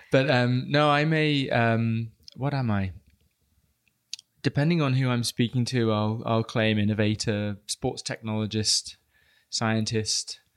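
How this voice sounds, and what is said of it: British accent. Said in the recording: “I am British, so apologies to anyone that can't quite understand me... the accent”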